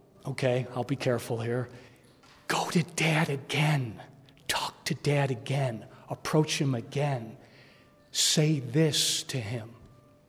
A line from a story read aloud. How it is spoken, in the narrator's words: one parent can whisper